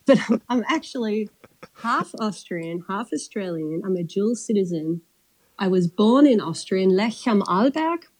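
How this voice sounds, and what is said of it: Australian accent. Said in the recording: “I chat with an Aussie accent”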